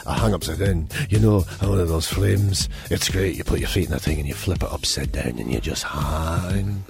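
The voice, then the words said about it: Put-on Welsh accent, drifting Scottish. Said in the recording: “to say it like he says it ... I don't know why he suddenly moved to Scotland. That was literally the best Welsh accent I could do.”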